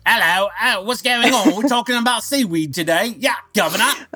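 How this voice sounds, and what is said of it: Put-on British accent. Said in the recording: “gives me an excuse to talk in a British accent.”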